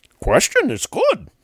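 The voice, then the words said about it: Imitates Yoda's voice. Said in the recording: “My bad Yoda impersonation.”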